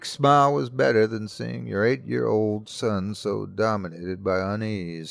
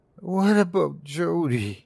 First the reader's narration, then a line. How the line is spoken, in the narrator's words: He said, his voice a mere whimper